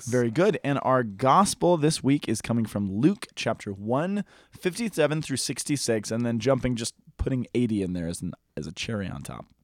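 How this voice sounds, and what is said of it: Strained, hoarse voice. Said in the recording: “I feel like I'm losing my voice.”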